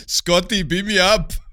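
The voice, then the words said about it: Arnold Schwarzenegger Austrian accent impression. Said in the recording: “Why did you turn it to Arnold Schwarzenegger?... Are you teasing the Austrian accent?”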